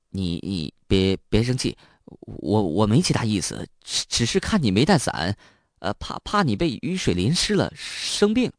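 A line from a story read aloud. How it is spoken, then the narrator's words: Stammering, nervous. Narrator (Chinese): 张明笑，结结巴巴的解释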